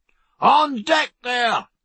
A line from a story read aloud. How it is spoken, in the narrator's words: roared Pullings